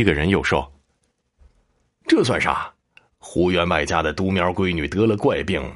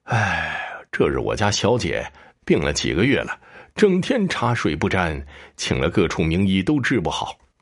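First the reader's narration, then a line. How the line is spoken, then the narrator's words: Sighing. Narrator (Chinese): 胡家仆人叹气说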